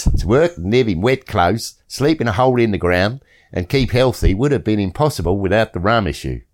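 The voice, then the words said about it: Put-on Australian accent. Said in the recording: “I want your Australian accent this time”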